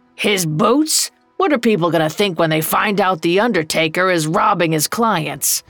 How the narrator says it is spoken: Old Joe growled

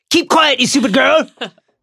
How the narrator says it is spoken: Snape shouted, looking suddenly quite deranged

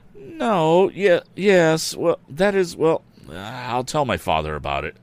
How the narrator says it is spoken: stammered Tom

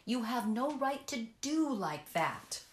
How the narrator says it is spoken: Olive cried out

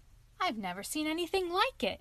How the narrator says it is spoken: exclaimed the clown

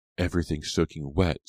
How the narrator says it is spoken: Suki snapped

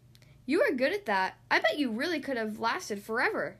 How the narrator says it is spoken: exclaimed Duck

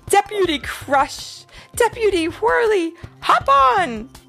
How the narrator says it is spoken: exclaimed Officer Carl

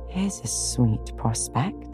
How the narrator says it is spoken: muttered Jo

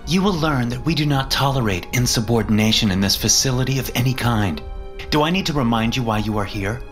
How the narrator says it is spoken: snapped

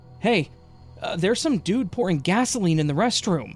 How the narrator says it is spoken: almost incoherently shouted

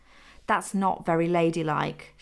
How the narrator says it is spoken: she said

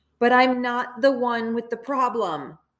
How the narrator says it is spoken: through tears and disdain and yelled

